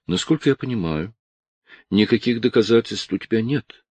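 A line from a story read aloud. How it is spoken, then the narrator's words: Calm. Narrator (Russian): спокойно произнесла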